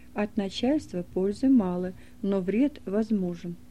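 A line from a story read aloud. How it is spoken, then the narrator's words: Repeated saying. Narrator (Russian): приговаривая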